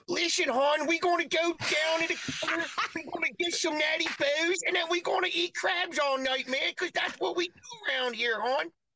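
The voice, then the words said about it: Put-on Baltimore accent. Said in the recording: “your Baltimore accent”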